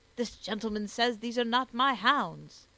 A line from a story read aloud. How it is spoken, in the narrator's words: shouted he to old Spraggan